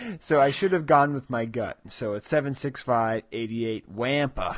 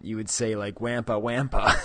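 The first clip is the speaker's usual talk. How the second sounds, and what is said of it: Exaggerated Western New York accent. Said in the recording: “the Rochester accent, which has very exaggerated A's ... if you had a real strong Western New York accent”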